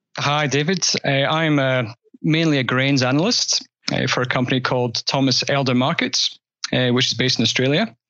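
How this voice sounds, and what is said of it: Scottish accent with Australian tang. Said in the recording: “I've got a bit of a tang in my accent because clearly I'm Scottish originally”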